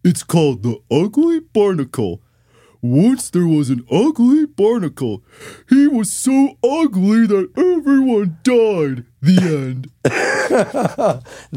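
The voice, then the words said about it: Cartoon character voice impression. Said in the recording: “my Patrick impersonation ... That's good.”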